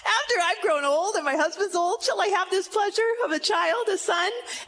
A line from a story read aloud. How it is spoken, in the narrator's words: Sarah laughed, and she said to herself